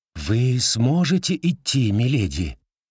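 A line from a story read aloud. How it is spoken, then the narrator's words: Gentle question. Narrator (Russian): мягко спросил доктор Ботвинг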